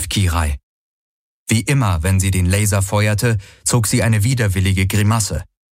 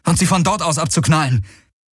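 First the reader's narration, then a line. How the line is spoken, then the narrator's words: Calling out. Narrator (German): rief Garlen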